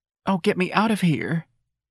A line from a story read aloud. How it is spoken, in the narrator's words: the little sailor pleaded